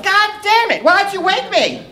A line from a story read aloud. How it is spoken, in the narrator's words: yell